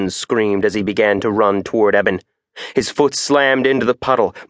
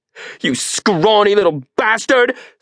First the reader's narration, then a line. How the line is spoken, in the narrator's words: screamed Eben